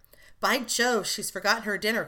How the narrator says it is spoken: cried the unconscious youth

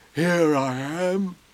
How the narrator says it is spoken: said a growly voice

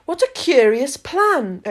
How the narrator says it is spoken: exclaimed Alice

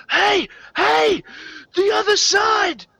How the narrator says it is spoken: some of the support personnel uh, shouting out to you

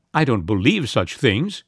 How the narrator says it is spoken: at last she snapped out

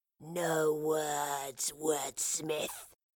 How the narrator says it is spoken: hissed the creature wearing Fraser's skin

